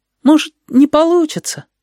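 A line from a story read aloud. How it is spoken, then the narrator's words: Uncertain. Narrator (Russian): неуверенно сказал Стасик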